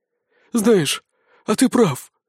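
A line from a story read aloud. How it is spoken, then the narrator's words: Sobbing. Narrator (Russian): всхлипнув, ответил Сисюля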